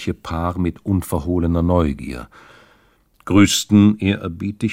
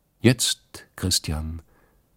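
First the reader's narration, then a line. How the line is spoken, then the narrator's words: Calm. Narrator (German): sagte die Stiefel Katrin ruhig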